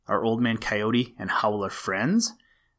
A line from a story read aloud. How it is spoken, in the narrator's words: asked Peter